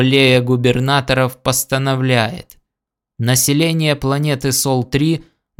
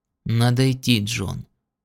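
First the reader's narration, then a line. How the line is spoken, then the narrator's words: Soft reminder. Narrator (Russian): мягко напомнил он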